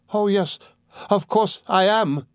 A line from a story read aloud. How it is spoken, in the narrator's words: cried Dora